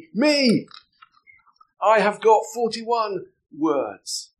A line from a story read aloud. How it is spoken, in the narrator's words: Paddington shouted out excitedly